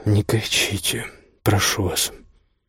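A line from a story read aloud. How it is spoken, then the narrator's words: Quiet speaking. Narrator (Russian): тихо заговорил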